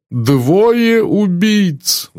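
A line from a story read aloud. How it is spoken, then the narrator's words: Moaning. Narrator (Russian): застонал мсье Бук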